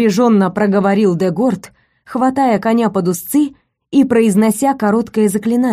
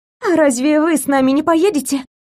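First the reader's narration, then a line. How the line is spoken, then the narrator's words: Excited breathless exhale. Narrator (Russian): взволнованно выдохнула Винсенсия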